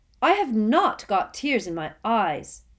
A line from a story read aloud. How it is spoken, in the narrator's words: said Harry loudly